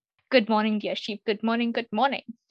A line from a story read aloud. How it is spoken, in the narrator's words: he exclaimed